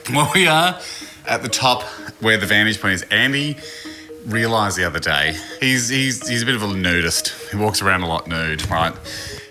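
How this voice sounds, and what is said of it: Out of breath, breathless speech. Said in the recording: “out of breath.⟧ Full of stairs.”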